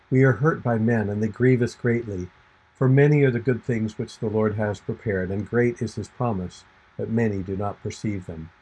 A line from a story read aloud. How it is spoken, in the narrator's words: sighing and lamenting, he said